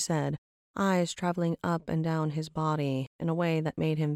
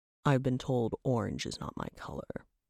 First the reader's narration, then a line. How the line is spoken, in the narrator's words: Trabok grumbled